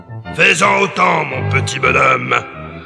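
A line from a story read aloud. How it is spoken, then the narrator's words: Growled. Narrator (French): gronda-t-il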